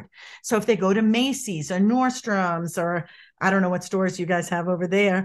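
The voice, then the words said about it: Boston accent. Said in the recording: “I'm from Boston originally, if people pick up on my accent”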